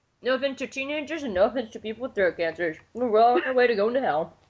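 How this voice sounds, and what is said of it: Usual voice. Nothing is said of it.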